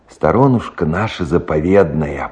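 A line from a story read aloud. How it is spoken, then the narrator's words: Old man's sighing mutter. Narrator (Russian): бормотал, вздыхая дед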